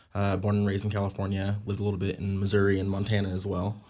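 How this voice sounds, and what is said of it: American English accent. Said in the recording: “if you can't tell from my accent, I come from the United States”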